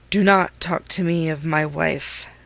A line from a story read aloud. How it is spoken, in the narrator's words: said he with a heavy sigh